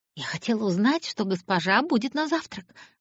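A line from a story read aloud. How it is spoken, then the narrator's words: Muttering. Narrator (Russian): пробормотала хозяйка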